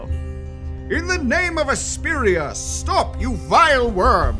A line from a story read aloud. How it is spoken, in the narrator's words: the second one will also yell